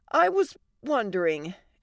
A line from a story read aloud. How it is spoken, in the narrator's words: Allie said nervously